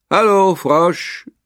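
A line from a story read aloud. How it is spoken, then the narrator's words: Called out. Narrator (German): rief Kröte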